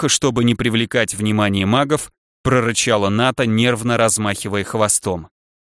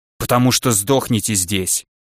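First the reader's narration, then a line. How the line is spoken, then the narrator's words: Snapping retort. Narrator (Russian): огрызнулась пантера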